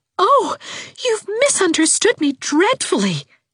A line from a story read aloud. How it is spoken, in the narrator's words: she exclaimed